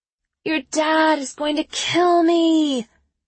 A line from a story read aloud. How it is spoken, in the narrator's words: Trina says with a groan